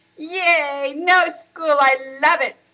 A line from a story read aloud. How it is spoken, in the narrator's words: shouted Riaz